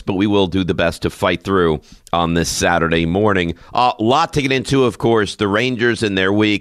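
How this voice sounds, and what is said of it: Slightly scratchy, hoarse voice. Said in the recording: “my voice is, a little scratchy. ... Little hoarse,”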